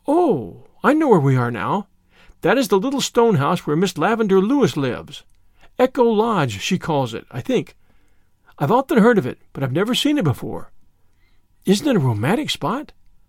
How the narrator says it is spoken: Diana exclaimed

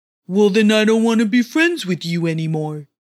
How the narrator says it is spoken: Doanu just grumbled

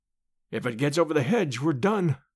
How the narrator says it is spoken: said Summerlee, and his voice crackled into a nervous laugh as he spoke

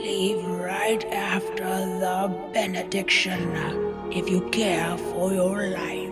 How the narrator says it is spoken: leaned toward her and whispered

